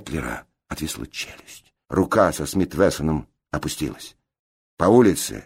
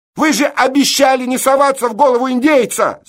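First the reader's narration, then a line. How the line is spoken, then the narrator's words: Reproachful shout, woman. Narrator (Russian): с упреком крикнула кавалерист-девица Фондорин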